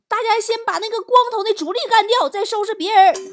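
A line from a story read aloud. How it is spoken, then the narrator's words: Loud shout. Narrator (Chinese): 对方领头的大喊一声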